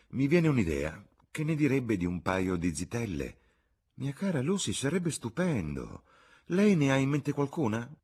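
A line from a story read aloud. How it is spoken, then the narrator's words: Exclaiming. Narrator (Italian): esclamò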